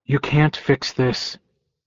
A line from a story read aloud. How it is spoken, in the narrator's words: I said, as kindly as I could